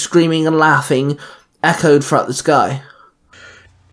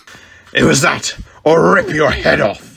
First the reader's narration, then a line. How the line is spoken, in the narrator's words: Sabretooth growled